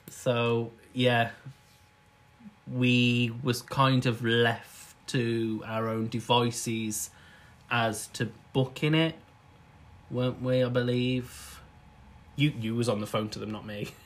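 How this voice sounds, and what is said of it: Birmingham English accent. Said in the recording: “we're in Birmingham, if you can't tell by the accent”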